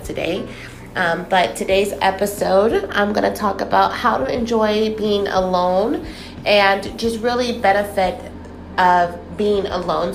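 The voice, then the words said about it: Congested, stuffed-up voice from cold. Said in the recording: “Excuse my voice today. I am under the weather. I do have a cold, so I sound pretty stuffed up”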